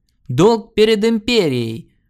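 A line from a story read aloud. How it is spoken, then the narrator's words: Thundering voice. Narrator (Russian): прогремел Арн Аббас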